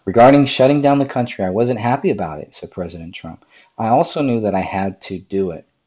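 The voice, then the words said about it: Raspy voice. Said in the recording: “i'm still getting over a little flu here and my voice is a little raspy”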